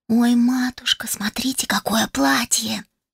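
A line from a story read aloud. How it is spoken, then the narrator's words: Excited whisper nearby. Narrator (Russian): Раздался совсем рядом восторженный шепот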